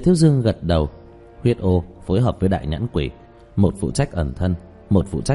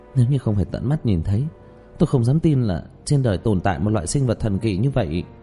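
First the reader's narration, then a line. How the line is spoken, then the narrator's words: Sighing. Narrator (Vietnamese): Trang Vũ Ninh thở dài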